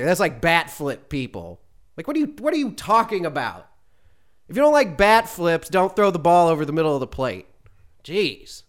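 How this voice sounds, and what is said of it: Angry, heated ranting delivery. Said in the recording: “I sound so angry”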